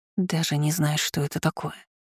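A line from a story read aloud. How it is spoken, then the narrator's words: Muttered. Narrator (Russian): пробормотала Лина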